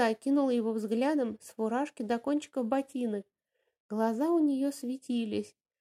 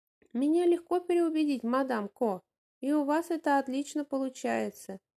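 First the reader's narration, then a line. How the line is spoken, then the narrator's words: Halting laughter. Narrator (Russian): И он прерывисто засмеялся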